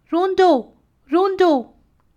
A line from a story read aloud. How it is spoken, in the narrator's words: called out